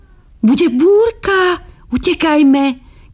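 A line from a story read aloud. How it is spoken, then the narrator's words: Children shouting. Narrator (Slovak): kričali deti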